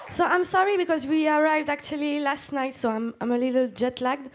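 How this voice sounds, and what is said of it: French accent. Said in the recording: “I have a French accent”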